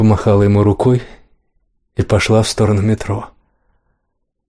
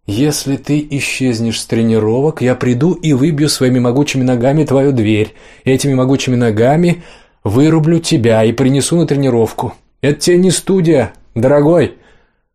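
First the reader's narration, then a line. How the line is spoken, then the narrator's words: Loud reminder. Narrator (Russian): Оливия громко, чтобы слышала вся округа, напомнила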